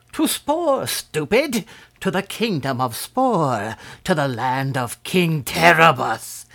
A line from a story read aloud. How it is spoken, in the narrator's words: shrieked the old man, going into violent peals of laughter